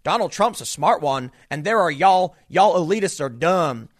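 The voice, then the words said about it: Put-on Southern US accent. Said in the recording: “here he broke out into a southern accent”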